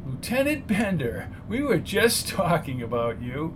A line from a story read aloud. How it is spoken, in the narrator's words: I chuckled